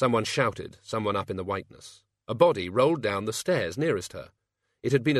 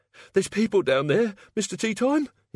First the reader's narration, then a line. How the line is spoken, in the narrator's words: he wheezed